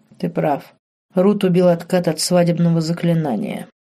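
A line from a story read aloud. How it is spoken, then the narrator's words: Quiet, guilty. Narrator (Russian): тихо произнес Марк, испытывая вину за эту смерть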